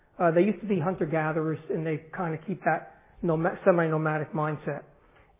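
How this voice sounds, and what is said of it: New Jersey accent. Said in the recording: “I speak with a Jersey accent.”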